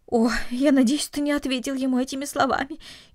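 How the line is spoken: Frightened. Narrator (Russian): испуганно произнесла мать

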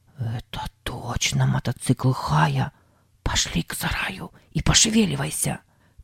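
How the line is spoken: Whisper. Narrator (Russian): прошептал Сэм

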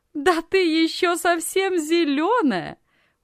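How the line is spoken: Loud laughter. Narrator (Russian): громко рассмеялась Анна

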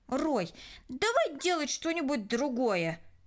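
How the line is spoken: Irritated. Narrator (Russian): раздраженно произнесла Кристина

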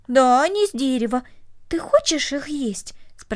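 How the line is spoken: Plain. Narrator (Russian): спросила Корнелли

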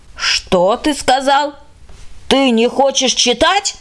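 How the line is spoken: Indignant shout. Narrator (Russian): закричала она возмущенно

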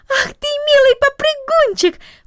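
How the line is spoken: Exclaimed. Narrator (Russian): воскликнула она

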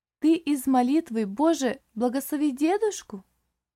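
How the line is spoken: Little girl's lively exclamation. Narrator (Russian): живо воскликнула малышка

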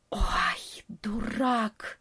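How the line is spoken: Half-voiced hiss. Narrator (Russian): прошипел в полголоса летучая мышь

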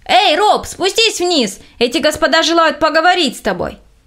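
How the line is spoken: Worker shouting. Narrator (Russian): один из рабочих закричал

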